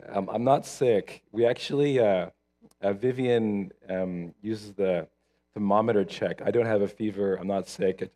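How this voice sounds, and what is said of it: Hoarse, husky voice from overuse. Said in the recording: “I did a talking thing for about an hour and a half, and I woke up on Saturday with sexy voice... I got sexy voice this morning, guys, so you have to bear with us”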